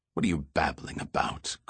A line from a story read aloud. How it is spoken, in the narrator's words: Goyette sneered